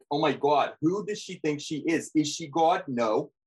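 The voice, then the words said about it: Put-on New Jersey accent. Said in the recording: “Teresa impression ... an Australian doing a New Jersey accent”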